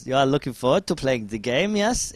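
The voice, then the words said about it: Imitated German accent. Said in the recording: “in like a German accent”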